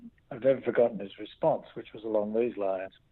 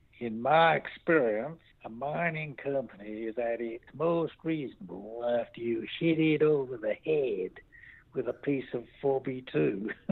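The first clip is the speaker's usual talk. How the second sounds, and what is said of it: Fake American accent. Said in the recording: “I'm going to put on a fake American accent”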